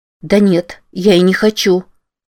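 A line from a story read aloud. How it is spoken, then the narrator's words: Plain. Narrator (Russian): сказала Рози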